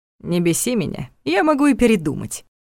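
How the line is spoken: Scoffing snort. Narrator (Russian): хмыкнул Ваня

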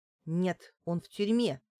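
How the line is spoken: Angry. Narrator (Russian): зло сказала Лариса

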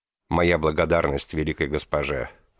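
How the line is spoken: Even, steady voice. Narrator (Russian): ровным голосом сказала Драупади

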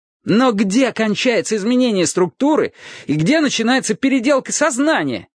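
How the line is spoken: Shouting. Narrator (Russian): закричал Трурль

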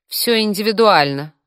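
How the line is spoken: Offended. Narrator (Russian): обиженно произнесла Катя

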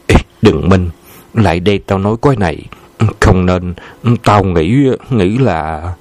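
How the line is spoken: Whisper. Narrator (Vietnamese): Tấn thì thào

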